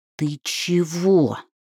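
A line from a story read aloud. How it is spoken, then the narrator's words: Hissing. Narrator (Russian): прошипел Гьорлум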